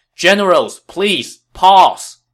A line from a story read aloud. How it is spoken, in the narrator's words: another rider hurried into the fray and shouted